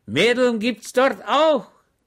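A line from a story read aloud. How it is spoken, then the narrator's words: Shouted. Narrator (German): schrie Schweg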